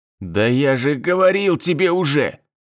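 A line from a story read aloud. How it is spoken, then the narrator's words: Hoarse wheeze. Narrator (Russian): прохрипел турок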